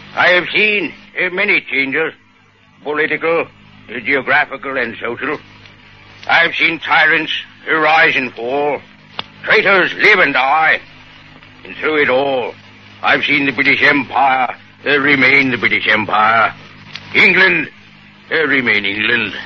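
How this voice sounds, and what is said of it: Winston Churchill impression. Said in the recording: “A perfect impersonation. ... Oh, that's Churchill, all right. You could sure fool me.”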